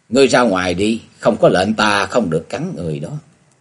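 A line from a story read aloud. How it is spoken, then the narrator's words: Gentle, soft. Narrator (Vietnamese): nhẹ nhàng nói với con Bạch Ly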